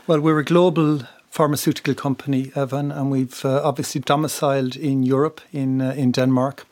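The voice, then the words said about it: Irish accent. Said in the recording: “people will hear from your accent that you originally, in fact, were from Republic of Ireland”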